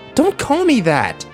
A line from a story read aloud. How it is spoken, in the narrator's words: she yelled at him